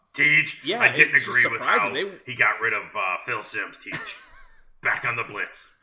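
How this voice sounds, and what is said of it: Poor imitation of another person's voice. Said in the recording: “terrible impression”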